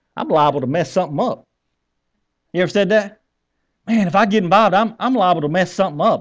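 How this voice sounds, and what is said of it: Put-on Southern US accent. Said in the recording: “I'm going to say this in my good southern accent.”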